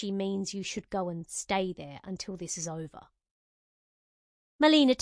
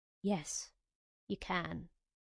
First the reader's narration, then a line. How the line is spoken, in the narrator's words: Aaron said softly